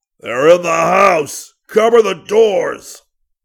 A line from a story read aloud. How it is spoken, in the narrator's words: Brad stumbled backwards and fell, and he roared